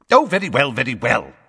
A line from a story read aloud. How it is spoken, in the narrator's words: snapped Fudge